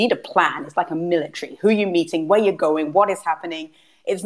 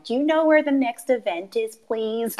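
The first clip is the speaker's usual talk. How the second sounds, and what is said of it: Put-on American accent. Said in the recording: “you doing an American accent is basically the best thing I've heard thus far today”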